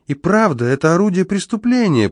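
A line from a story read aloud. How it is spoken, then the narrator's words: Squeaky voice. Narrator (Russian): пропищал он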